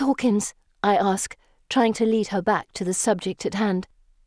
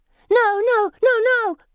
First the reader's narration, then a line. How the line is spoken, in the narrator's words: she shouts to the air